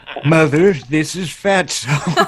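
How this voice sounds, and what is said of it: Ronald Reagan impression. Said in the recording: “good Reagan impression”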